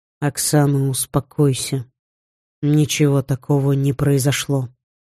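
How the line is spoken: Calm. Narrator (Russian): спокойно произнес Женя

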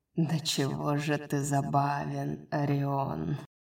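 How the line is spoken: Soft laugh. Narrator (Russian): тихо засмеялся принц Ямы

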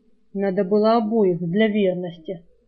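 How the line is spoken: Annoyed grumble. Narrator (Russian): с досадой проворчал Саврянин

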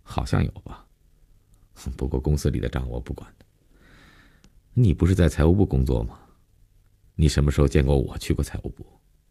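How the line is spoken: Flat, indifferent admission. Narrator (Chinese): 林信成没有一点被揭露的尴尬和紧张，淡淡的，无所谓的承认

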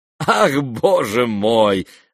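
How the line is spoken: Laughing. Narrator (Russian): рассмеялся Иван Петрович

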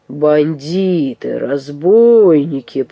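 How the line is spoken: Growling. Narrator (Russian): прорычал тот

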